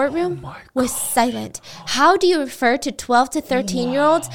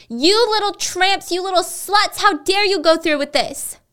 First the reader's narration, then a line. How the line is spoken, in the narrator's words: She screamed at the victims